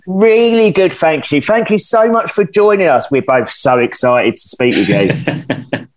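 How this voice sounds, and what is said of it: English accent. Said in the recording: “it's really lovely and beautiful to hear an English accent ... England accent, how fabulous”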